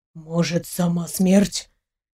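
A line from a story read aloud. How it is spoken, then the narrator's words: Quiet breathy speech. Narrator (Russian): тихо выдохнул Илья Пантелеевич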